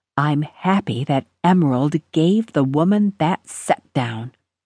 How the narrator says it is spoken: Gogi whispered

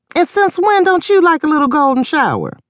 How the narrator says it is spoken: The 2 guards hollered out in laughter

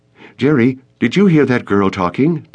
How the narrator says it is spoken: Danielle blurted out

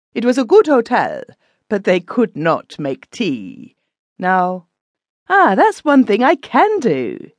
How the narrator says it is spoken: said, laughing brightly

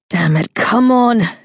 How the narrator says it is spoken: she snarled, shoving with everything she had

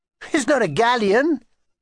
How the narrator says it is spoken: spluttered

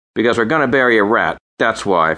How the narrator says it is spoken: Frank said, his voice impatient, as if he couldn't wait for Georgie Porgy to go away

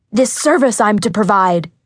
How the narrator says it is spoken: shouted

